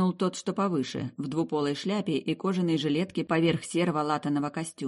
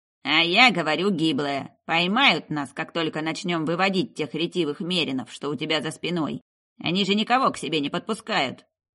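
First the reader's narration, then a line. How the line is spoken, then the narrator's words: Grumbled. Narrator (Russian): проворчал бандит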